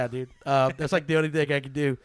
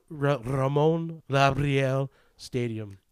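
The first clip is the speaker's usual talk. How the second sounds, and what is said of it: Spanish accent with rolled R's. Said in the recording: “That was excellent accent there... Listen to those old R's, ladies... That's good. That's pretty good. I appreciate a good accent”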